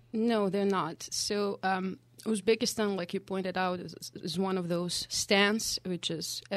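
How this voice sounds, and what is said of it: Slight foreign accent. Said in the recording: “people can hear that you have a little bit of an accent”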